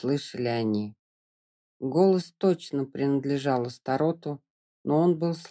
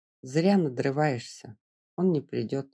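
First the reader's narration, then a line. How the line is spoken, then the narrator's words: Plain. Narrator (Russian): сказала Келли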